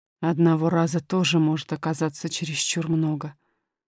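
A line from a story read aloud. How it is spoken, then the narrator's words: Muttered. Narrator (Russian): пробормотал король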